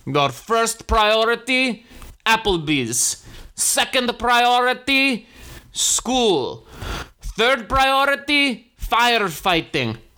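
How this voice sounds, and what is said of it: Put-on Greek accent. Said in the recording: “I'm going to do the Greek accent. And I want you to know I'm going to do the accent and I want you to know it was Greek.”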